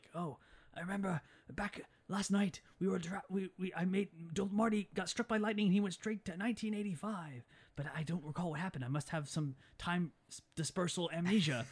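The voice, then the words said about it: Impression of eccentric scientist character. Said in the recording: “That's a good impression.”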